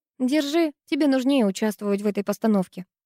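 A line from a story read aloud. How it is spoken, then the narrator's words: Plain. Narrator (Russian): сказала я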